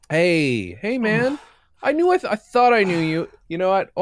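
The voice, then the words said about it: Different put-on character voice. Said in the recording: “Why am I doing a different voice?”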